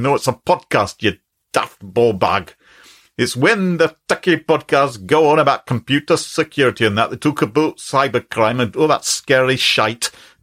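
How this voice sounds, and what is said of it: Put-on Glaswegian accent. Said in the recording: “quite an interesting Glaswegian accent”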